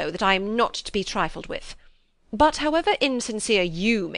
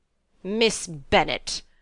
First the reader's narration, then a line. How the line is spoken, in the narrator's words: replied her ladyship in an angry tone